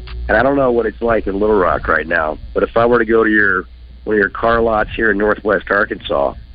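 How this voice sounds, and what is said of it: Voice sounds off, unwell. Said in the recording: “You can probably tell by my voice that something's not right... I'm going to sound like this for a couple of days”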